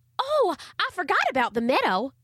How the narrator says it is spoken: exclaimed Charlie Ray

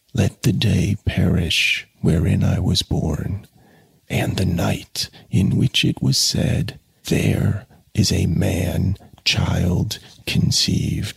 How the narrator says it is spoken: He whispered slowly, his parched lips scarcely moving

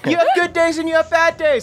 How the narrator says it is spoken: I scream

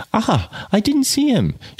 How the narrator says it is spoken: she cried in her quick, light voice

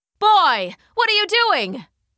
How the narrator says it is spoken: cried one farmer

